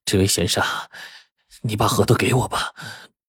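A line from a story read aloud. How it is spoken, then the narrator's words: Flustered, panting. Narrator (Chinese): 这白脸男子呀，很是狼狈呀，喘着气对赵核桃说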